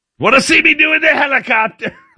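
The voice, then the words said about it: Imitates another person's voice. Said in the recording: “I don't know why I'm doing it the Trump voice. ... Why is Trump talking about it?”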